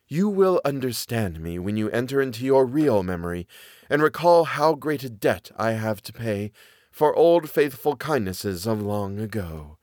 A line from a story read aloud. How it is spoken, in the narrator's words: sighed the other in a voice like falling wind